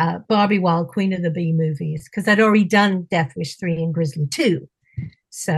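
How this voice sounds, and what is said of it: Usual voice. Nothing is said of it.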